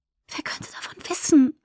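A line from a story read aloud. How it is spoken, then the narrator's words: Whisper. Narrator (German): flüsterte Alice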